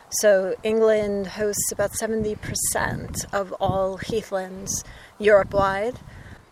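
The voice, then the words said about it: Foreign North American accent. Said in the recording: “You could probably hear from my accent, I come from other lands ... not known to folks in North America”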